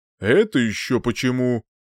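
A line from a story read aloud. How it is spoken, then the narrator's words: Menacing question. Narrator (Russian): грозно нахмурив брови, спросил Утер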